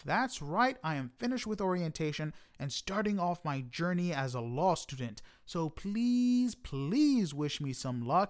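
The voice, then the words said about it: Excited, upbeat voice. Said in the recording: “I am super excited, as you can tell from my voice.”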